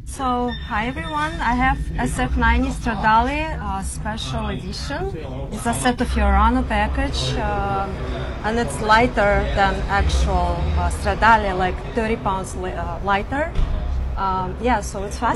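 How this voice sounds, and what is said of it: Foreign-accented English. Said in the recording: “you've got an accent too”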